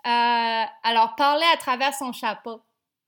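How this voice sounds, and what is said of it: Put-on Québécois French accent. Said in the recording (French): “je vais essayer de le faire avec un accent québécois.”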